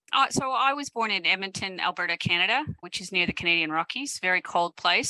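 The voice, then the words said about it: Non-Australian accent. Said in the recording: “the accent suggests that Australia wasn't where you originated from”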